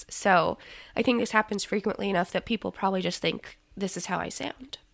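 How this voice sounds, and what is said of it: Hoarse, sick-sounding voice. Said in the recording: “Cough Shop ... uh, bronchitis ... With my, my best podcast voice ... It gives you a very distinct podcast. Voice.”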